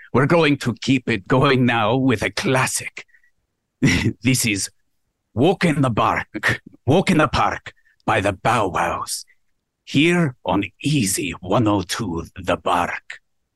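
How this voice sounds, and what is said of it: Put-on Scottish accent, older-sounding. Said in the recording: “you sounded 40, but beyond that, I love the accent ... the Scottish accent makes people go deeper”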